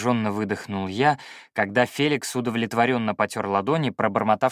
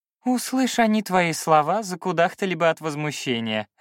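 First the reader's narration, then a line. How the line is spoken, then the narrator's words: Laughing. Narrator (Russian): рассмеялся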